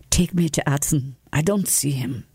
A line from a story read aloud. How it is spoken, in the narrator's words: whispered